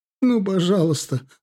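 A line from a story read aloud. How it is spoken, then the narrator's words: Sobbing plea. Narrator (Russian): рыдая, взмолилась мать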